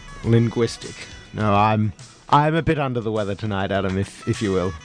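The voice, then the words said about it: Hoarse voice. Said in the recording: “You're sounding a bit hoarse yourself.”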